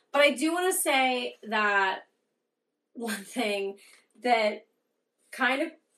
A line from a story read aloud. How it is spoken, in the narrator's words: I laughed out loud